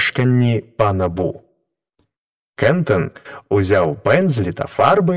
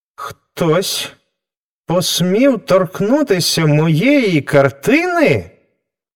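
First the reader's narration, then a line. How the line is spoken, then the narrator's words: Exclaimed, artist. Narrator (Ukrainian): вигукнув художник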